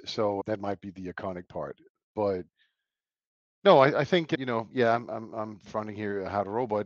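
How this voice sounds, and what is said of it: Mixed Danish and American accent. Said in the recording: “this terrible half Danish accent. ... a mix of also been living in Chicago and now here in Nashville, and then a little bit of Danish”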